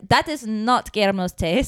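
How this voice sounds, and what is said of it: Put-on French accent. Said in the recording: “Her French accent.”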